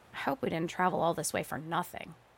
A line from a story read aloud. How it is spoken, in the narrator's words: I said